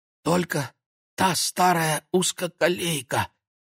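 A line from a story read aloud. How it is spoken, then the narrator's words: Strangled exhale. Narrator (Russian): как-то сдавленно выдохнул Владик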